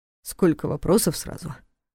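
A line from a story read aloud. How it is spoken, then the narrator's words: Snorting investigator. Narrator (Russian): хмыкнул следователь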